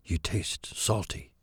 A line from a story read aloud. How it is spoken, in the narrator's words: whispered